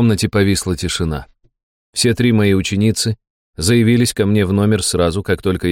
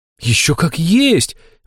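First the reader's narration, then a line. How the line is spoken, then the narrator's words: Exclaimed. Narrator (Russian): воскликнула Милена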